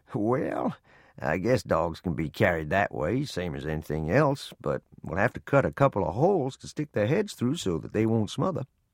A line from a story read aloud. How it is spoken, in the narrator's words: Chuckling, he said